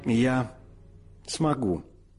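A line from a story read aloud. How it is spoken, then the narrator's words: Calm. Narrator (Russian): спокойно ответила Мэдди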